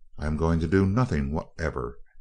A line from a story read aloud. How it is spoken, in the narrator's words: answered the scientist coldly